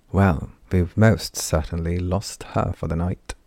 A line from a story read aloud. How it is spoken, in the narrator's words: said with a small chuckle